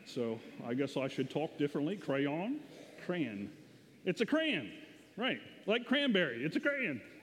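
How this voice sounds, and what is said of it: Slight Southern American accent. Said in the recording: “My dialect is coming out. ... This is my little southern accent coming out, I guess.”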